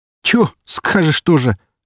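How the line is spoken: Laughing. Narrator (Russian): рассмеялся он

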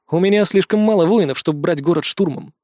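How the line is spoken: Snorted. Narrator (Russian): хмыкнул

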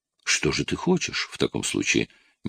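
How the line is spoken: Asked gently. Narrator (Russian): мягко спросила его Скарлетт

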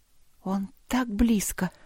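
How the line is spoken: Whisper. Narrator (Russian): прошептала она

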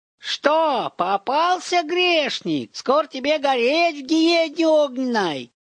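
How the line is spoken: Sudden yell. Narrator (Russian): заорала она вдруг

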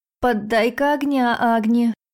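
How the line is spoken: Shout right in ear. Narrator (Russian): крикнули мне прямо в ухо … голос Бублика

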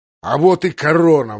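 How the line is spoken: Roaring. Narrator (Russian): взревел

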